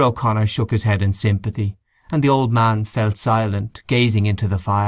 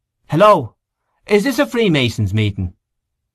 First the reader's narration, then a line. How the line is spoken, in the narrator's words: Someone called out